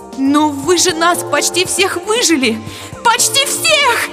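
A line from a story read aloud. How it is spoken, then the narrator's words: Shrieking. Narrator (Russian): Завизжала я вслух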